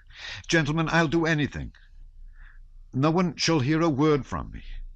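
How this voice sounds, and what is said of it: Imploring voice. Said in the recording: “in an imploring voice.”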